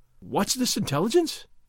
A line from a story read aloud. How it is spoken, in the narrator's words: Don Diego cried, betraying sudden interest